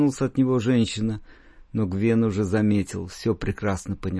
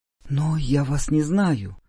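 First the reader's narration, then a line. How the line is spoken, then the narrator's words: Whispered uncertainly, woman. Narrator (Russian): неуверенно прошептала женщина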